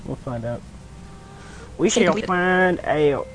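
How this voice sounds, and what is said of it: Fake Southern American accent. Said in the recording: “me and my fake southern accent”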